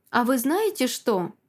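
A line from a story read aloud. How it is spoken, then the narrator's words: Grandmother's sudden joyful question. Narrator (Russian): внезапно радостно спрашивает бабушка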